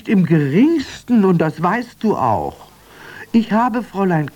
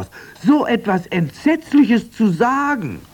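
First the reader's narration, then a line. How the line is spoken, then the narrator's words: Exclaimed. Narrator (German): rief Fräulein Pustekuchen aus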